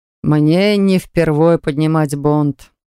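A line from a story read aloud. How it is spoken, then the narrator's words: Father's hmph. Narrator (Russian): хмыкнул отец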